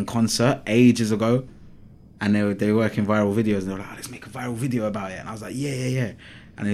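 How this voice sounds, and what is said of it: Usual voice. Nothing is said of it.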